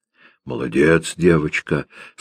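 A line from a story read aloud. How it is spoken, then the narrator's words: Hoarse. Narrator (Russian): сказала она хрипло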